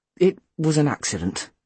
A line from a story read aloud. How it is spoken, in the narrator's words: Mum mumbled